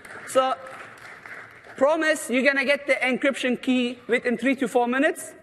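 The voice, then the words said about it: Mixed Turkish-German-Australian accent. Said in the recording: “my accent ... the accent is not my fault ... Turkish parents, made in Germany, living in Australia, and this is what's coming out”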